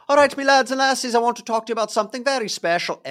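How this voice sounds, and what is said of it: Bad Scottish accent, sounds Irish. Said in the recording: “Every time I try to do a Scottish accent, every time, it sounds like a leprechaun. It is the worst. I am terrible at it.”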